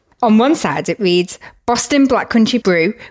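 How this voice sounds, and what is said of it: Usual voice. Nothing is said of it.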